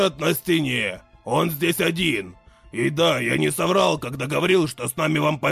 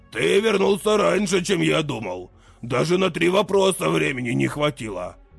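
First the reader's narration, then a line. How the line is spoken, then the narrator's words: Chuckling. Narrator (Russian): хохотнул Талгар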